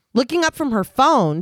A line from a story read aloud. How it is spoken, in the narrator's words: Susie snaps at her, asking